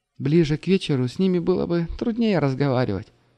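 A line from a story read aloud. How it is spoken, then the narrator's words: Sighed. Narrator (Russian): вздохнула Аня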